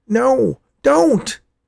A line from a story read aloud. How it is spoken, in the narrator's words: Worm shouted